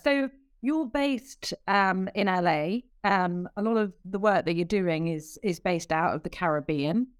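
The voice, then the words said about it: British accent. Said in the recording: “my accent won't be too much of a surprise... is British”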